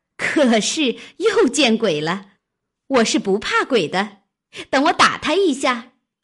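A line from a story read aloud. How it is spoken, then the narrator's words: Laughing. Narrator (Chinese): 湘云笑道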